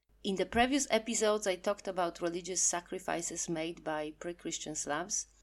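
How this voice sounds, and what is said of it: Polish accent. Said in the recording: “zero skill Polish accent presenter”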